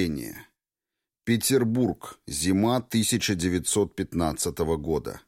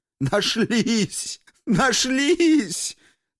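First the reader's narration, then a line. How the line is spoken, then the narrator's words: Words between sobs. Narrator (Russian): Только и удавалось ему выговорить между всхлипываниями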